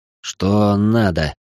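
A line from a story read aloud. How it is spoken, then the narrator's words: Sleepy voice. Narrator (Russian): сонным голосом произнес я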